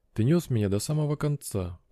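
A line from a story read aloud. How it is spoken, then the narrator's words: Whisper. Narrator (Russian): прошептала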